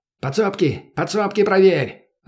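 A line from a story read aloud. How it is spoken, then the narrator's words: Someone yelling. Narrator (Russian): орал кто-то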